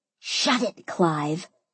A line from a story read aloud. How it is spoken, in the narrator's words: I hissed